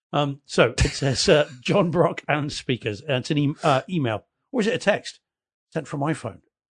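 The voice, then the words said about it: English accent. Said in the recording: “Apologies if it's read in an English accent.”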